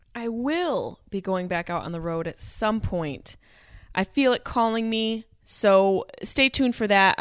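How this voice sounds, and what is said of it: Hoarse, strained, fading voice. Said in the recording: “I don't know what's wrong with my voice. ... I'm losing my voice.”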